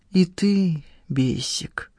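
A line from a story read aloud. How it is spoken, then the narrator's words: Sad. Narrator (Russian): грустно молвила Надежда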